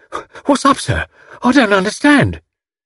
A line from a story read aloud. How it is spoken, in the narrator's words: Albert hard on his heels, inquiring breathlessly as he ran